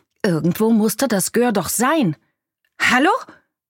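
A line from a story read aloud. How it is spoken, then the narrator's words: Calling out. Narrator (German): rief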